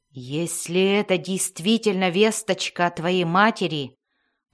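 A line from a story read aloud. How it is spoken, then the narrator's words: Growled. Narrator (Russian): прорычал Белвар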